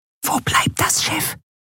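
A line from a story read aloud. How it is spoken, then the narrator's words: Whispering in ear. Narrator (German): flüsterte Nelen ihr ins Ohr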